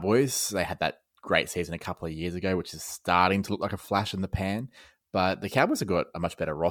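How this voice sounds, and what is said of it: Usual voice. Nothing is said of it.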